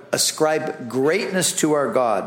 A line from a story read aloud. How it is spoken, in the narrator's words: Moses said